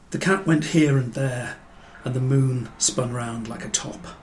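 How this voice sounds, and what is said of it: English accent. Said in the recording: “I've probably got exactly the wrong voice for this. I'm far too English”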